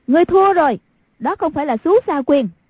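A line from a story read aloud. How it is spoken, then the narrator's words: Calling out. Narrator (Vietnamese): Hoàng Dung nhảy ra khỏi vòng chiến, kêu lên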